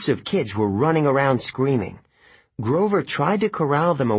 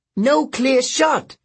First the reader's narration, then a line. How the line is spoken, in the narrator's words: Zoe yelled